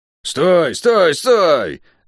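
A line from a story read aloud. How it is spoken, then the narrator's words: Deafening yell. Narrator (Russian): оглушительно заорала Тиф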